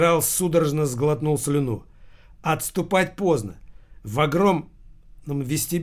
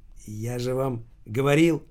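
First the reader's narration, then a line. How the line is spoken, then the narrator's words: Quiet. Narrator (Russian): Прохоров негромко произнес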